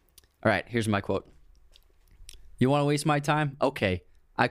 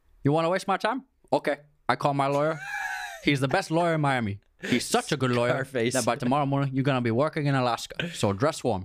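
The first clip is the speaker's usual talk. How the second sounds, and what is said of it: Tony Montana Scarface accent impression. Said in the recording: “Want me to say it with an accent? ... say it with an accent ... It's not bad. It's pretty good, Tony Montana. ... Not bad, Scarface.”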